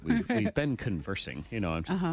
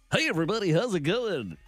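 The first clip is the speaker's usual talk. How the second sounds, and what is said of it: Exaggerated radio announcer voice. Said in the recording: “in your radio voice”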